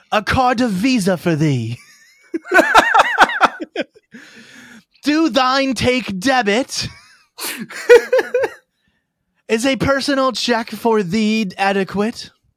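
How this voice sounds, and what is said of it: Deliberately bad faux-medieval accent. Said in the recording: “you have to speak in a bad accent. ... good accents are not tolerated.”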